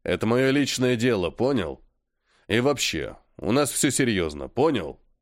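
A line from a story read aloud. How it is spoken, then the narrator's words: Very angry growling. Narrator (Russian): Разозлился он сильно и даже не хрипел, рычал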